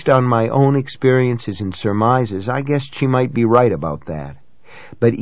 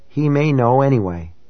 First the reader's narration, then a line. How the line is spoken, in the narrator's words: in a hopeless voice, she said